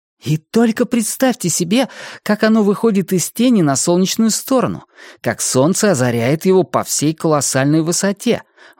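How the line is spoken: Exclamation. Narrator (Russian): воскликнул Хуахуа

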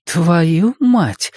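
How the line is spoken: Breathless exclamation. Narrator (Russian): выдохнула Саша

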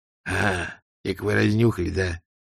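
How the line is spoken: Quiet. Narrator (Russian): тихо сказал он

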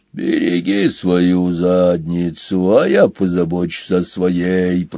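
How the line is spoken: Grumbling rhino. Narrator (Russian): проворчал носорог

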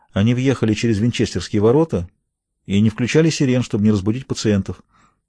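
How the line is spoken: Calm, pale answer. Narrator (Russian): Побледнев, как полотно, Мэри Тейлор спокойно ответила

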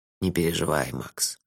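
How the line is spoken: Soft. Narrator (Russian): мягко сказал Лонли Локли

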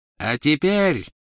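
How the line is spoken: Triumphant ringing proclamation. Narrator (Russian): победно звенящим голосом провозгласила она

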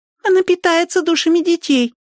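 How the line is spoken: Squeaky child's voice. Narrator (Russian): пропищал какой-то мелкий

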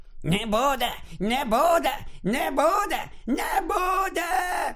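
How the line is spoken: Shrieking. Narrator (Ukrainian): Крічер уже просто верещав

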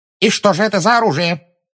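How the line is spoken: Sharp question. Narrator (Russian): резко спросила Амбридж

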